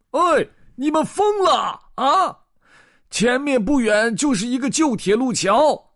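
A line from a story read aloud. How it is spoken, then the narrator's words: Sudden angry roar. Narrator (Chinese): 突然传来了一声怒吼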